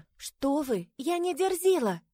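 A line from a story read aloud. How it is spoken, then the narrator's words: Timid objection. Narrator (Russian): Робко возразила Кристина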